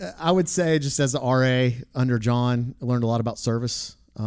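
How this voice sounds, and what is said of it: Usual voice. Nothing is said of it.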